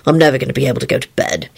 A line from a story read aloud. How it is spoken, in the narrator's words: he sighed resignedly to Rosie